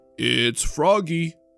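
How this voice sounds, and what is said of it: Deep croaking voice. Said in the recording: “croaked a deep voice.”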